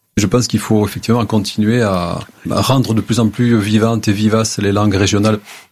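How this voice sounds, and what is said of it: Recognizable Lot-et-Garonne regional accent. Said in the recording (French): “celui dont l'accent, normalement, elle est reconnaissable ... Du Lot-et-Garonne”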